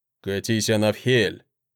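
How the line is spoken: Grumbling man. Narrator (Russian): проворчал мужчина

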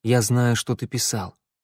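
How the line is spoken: Quiet. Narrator (Russian): сказал негромко Тео

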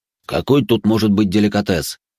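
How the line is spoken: Irritated cook. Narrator (Russian): раздраженно отмахнулся повар

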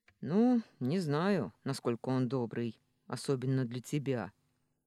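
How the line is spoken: Rough, blunt man. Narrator (Russian): грубо заметил мужчина

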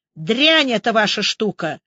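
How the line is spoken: Angry shout. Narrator (Russian): сердито выкрикнул Андрей Борисович

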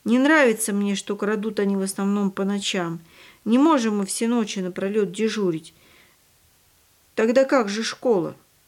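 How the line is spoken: Heavy sigh. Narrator (Russian): Яночка тяжело вздохнула

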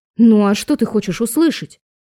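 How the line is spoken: Irritated question. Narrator (Russian): раздраженно спросила

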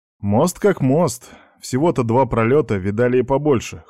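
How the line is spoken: Dismissive snort. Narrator (Russian): хмыкнул Аникеев

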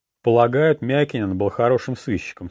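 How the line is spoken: Plain. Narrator (Russian): сказал я

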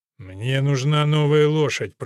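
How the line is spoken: Grumbling. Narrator (Russian): проворчал Ральф

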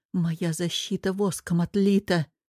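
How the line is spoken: Muttering. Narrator (Russian): забормотала Вера

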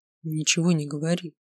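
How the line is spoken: Whisper in the ear. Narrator (Russian): прошептал он мне на ухо

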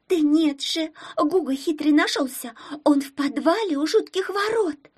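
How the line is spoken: Shout, voice regained. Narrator (Russian): Обретая голос, закричала Пупсикова

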